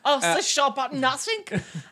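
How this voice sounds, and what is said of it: Mock German accent. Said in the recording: “We slipped back into the German accents there.”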